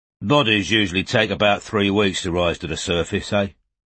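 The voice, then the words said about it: South London accent, hostile undertone. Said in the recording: “His voice, with its South London accent, held a definite undertone of animosity.”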